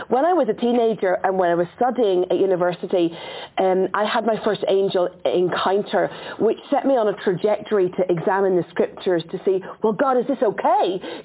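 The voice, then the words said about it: Irish accent. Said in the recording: “this is an Irish accent, and I'm full-blown Celtic warrior”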